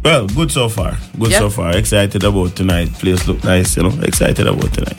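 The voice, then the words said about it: Jamaican accent. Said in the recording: “you have a Jamaican accent.”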